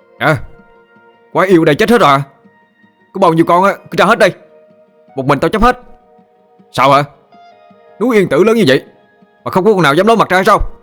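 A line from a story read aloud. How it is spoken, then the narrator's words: Loud defiant yell. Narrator (Vietnamese): Tôi gân cổ hét lên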